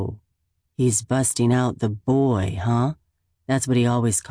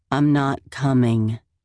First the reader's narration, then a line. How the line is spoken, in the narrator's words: I say coldly